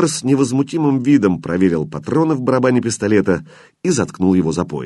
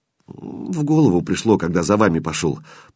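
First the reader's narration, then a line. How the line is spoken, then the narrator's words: Muttering. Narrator (Russian): пробормотал Кирилл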